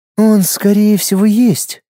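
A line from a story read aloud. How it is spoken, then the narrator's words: Sad. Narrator (Russian): печально покачала головой Луиза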